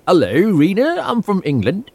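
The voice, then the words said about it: Put-on English accent. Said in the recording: “did you also have an accent? Did you use an accent?”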